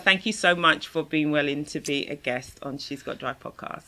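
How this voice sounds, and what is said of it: British accent. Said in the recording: “that fabulous British accent of yours. I just adore your voice.”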